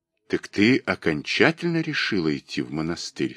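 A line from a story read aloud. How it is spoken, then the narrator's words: Plain question. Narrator (Russian): спросил он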